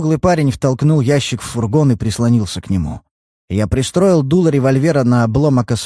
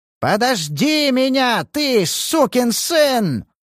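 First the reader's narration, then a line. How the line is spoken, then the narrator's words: Yell over engine roar. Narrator (Russian): завопил высокий, перекрывая рев мотора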